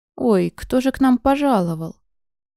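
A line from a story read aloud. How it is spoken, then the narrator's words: Sudden exclamation. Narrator (Russian): Воскликнуло вдруг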